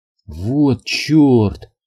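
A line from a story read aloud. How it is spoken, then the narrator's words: Breathless sudden realization. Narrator (Russian): выдохнула Рут, внезапно осознав, что происходит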